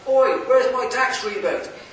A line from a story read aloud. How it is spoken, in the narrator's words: someone shouted out